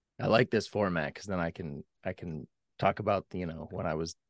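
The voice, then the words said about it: Hoarse, strained voice. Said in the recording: “apologize for my voice. I've been sick ... a case of the laryngitis”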